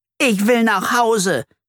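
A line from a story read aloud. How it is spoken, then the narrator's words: Screaming. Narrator (German): schreit Flori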